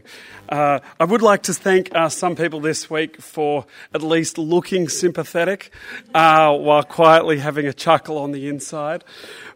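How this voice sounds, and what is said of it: Hoarse, strained voice. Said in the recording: “I've lost my voice quite badly.”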